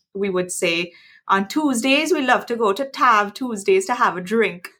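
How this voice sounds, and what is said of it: Imitated Trinidadian accent. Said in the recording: “I can imitate the Trinidadian accent, given I grew up in the Caribbean ... in a Trinidadian accent ... Wow, that was absolutely incredible.”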